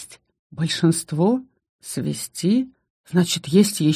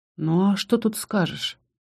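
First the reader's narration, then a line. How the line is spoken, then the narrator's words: Sighing. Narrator (Russian): Я вздохнула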